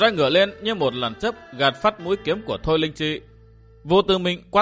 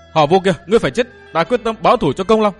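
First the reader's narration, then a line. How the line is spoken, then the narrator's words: Shouting. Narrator (Vietnamese): Thôi Linh Chi hét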